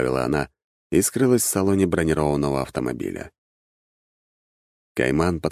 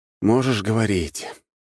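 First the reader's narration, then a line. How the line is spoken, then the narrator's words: Sighing. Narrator (Russian): вздохнул я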